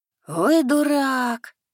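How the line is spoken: Blond youth groaning. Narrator (Russian): Простонал блондинчик

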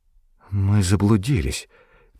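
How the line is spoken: Quiet speech. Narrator (Russian): тихо проговорила

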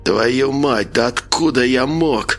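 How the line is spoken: Hiss through broken lips. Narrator (Russian): прошипел Николай, едва шевеля разбитыми губами

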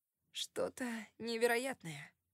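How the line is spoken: Hoarse voice. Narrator (Russian): сказал хриплым голосом

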